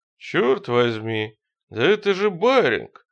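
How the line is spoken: Captain's exclamation. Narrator (Russian): воскликнул капитан

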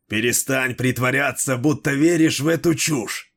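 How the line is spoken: Growled. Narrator (Russian): прорычал Дрибок

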